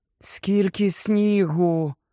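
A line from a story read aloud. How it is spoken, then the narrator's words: Muffled whisper. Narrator (Ukrainian): прошепотіла під плащем Герміона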